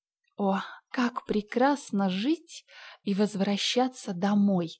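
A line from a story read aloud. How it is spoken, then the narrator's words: Sighed. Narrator (Russian): вздохнула Энн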